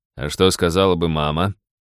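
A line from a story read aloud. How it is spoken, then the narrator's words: Sad mock deep bass. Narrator (Russian): Лиза погрустнела, страшным басом процитировала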